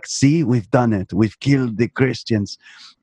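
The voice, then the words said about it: Imitates a film character's accent. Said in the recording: “in that exact accent, it was actually a good impression.”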